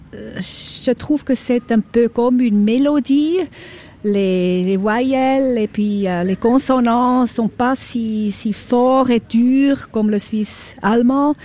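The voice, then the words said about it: Swiss German accent in French. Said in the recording (French): “j'ai un accent, je sais, je suis suisse allemande”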